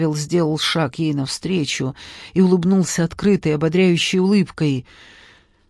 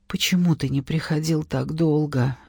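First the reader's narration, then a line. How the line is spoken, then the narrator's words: Tearful plaintive question. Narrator (Russian): жалобно спросила она сквозь слезы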